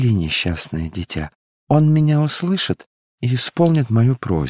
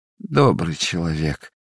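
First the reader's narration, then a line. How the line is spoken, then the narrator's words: Sobbing beggar. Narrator (Russian): зарыдал нищий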